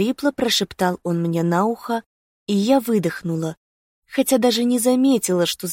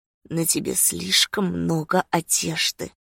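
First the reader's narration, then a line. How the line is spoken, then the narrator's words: Murmured against lips. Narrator (Russian): пробормотал он мне в губы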